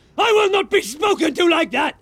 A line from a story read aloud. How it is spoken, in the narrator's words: Snape shrieked, looking madder than ever